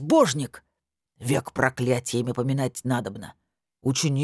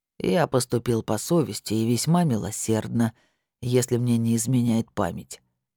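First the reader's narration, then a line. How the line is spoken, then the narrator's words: Plain. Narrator (Russian): сказал Диггер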